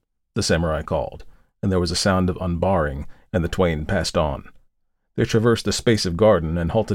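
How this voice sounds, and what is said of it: Usual voice. Nothing is said of it.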